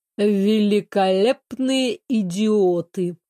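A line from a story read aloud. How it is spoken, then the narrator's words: Contemptuous, through teeth. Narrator (Russian): голосом, полным аристократического презрения, процедил Валериан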